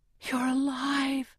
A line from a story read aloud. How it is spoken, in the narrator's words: I whisper